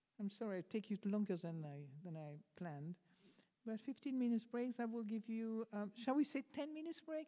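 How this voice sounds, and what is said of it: Strong French accent. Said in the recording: “my French accent. I didn't realize I had such a strong French accent”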